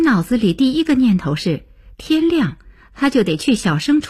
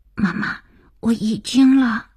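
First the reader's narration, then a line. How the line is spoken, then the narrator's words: Child's hurried frightened whisper. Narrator (Chinese): 儿子急促惶恐的小声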